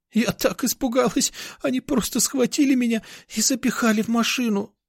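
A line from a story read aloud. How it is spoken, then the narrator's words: Speaking through tears. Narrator (Russian): Сквозь слезы проговорила Даша, уткнувшись мне в грудь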